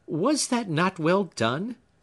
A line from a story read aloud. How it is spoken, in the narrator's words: asked Phoebe, laughing